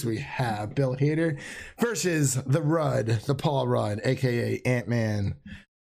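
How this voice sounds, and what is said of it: Slightly raspy voice. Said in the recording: “my voice is getting a little raspy”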